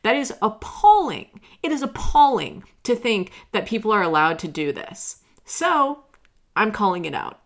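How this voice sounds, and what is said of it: Raised, passionate loud voice. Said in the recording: “I'm sorry for raising my voice. As you can see, or hear, I suppose, I just am really passionate”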